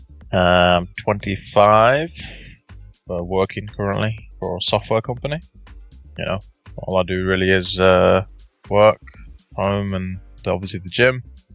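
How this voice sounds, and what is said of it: English accent. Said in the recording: “I live in England, hence the accent.”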